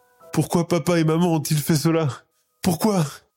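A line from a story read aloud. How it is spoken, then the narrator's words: Sobbing repetition. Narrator (French): répète-t-elle entre deux gros sanglots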